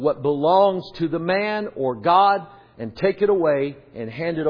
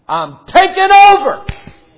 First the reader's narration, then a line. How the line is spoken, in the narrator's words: cried with a loud voice, as when a lion roareth